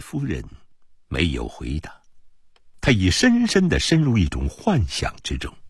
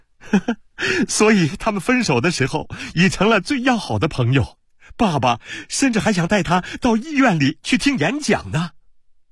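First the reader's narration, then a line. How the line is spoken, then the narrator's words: Chuckling. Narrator (Chinese): 阿尔佩笑了一声，又说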